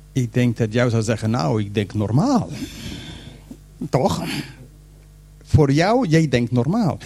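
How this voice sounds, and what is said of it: Non-native Dutch accent. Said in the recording (Dutch): “ik ben geen Nederlander, dus mijn accent is een beetje anders”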